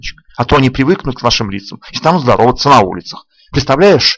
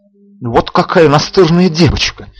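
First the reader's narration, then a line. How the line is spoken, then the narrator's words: Exasperated exclamation. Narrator (Russian): в сердцах воскликнул дежурный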